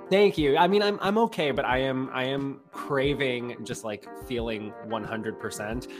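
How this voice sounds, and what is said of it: Stuffy, congested voice. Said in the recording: “I currently have COVID, so I sound a little stuffy and congested.”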